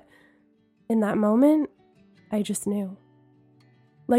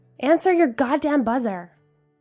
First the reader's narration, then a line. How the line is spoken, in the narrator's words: a neighbor yelled